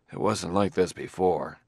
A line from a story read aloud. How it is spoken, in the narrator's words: muttered Bailey